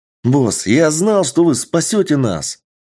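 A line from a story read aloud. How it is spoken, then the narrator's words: Young man exclaiming. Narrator (Russian): воскликнул молодой парень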